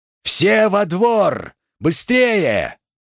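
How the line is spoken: Full-lunged yell. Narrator (Russian): Набрав в грудь побольше воздуха, Макс заорал на всю крепость

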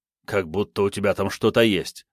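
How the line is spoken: Grumble. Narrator (Russian): проворчал

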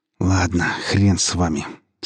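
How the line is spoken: Grudging, through gritted teeth. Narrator (Russian): сквозь зубы процедил Иван

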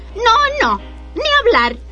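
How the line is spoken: Squealing refusal. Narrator (Spanish): chilló el segundo cerdito

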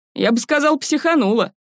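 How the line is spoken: Chuckling. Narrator (Russian): хохотнул

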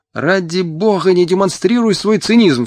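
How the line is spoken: Agitated outcry. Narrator (Russian): вскричал Мотя, взволнованно

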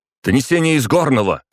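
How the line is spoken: Shouted. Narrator (Russian): крикнул

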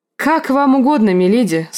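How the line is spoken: Agreeing. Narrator (Russian): согласился Родрик

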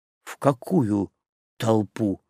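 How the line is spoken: Weary question. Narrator (Russian): устало спросил Ариста

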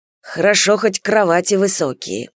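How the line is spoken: Grumbling. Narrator (Russian): бурчал

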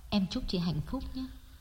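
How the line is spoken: Soft, near whisper. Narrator (Vietnamese): Đông nói nhỏ như thì thầm

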